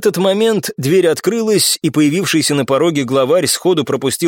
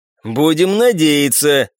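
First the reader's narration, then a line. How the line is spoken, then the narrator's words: Chuckling horse. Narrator (Russian): хохотнул конь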